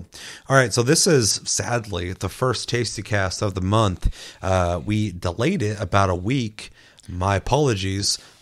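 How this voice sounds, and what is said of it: Sick, under-the-weather voice. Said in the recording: “I've been feeling under the weather. You can probably hear it in my voice.”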